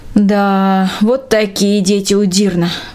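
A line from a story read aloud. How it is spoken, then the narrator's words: Sighing. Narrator (Russian): вздохнула Трина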